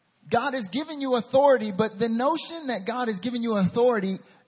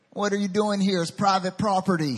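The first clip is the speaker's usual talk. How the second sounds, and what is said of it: Southern US accent. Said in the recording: “It's my southern accent.”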